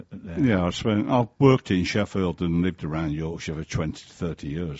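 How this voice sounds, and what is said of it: Mild northern English accent. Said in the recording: “you've got a bit of a northern accent ... you don't have a very strong Birmingham accent, because I was kind of thinking Yorkshire”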